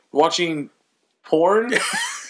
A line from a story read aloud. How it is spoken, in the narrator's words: I laugh so hard